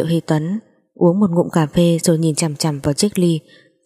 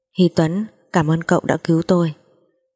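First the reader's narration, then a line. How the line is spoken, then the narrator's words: Soft gentle. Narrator (Vietnamese): Chu Thiến nhẹ nhàng nói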